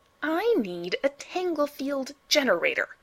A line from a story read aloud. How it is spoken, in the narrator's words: Miles snapped